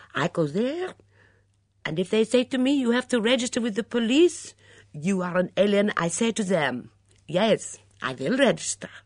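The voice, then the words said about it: Good imitation of a foreign accent. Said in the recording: “Julia produced a very good imitation of Mitzi's accent,”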